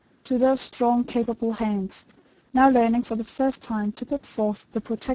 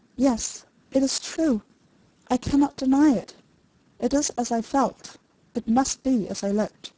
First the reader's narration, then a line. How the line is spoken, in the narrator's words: she whispered